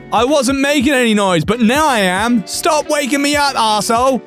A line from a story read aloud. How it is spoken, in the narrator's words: screamed